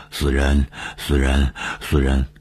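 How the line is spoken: Panting, sneering mutter. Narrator (Chinese): 夏雨喘着粗气，他对着小亚长久的狞笑，嘴里嘟囔着说

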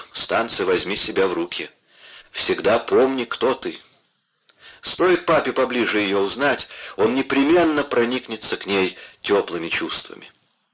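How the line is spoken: Stern. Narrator (Russian): строго прибавил

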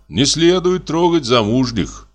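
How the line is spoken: Sigh. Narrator (Russian): вздохнул я

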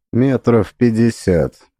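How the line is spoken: Even-voiced reply. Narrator (Russian): ровным голосом ответила Лидия

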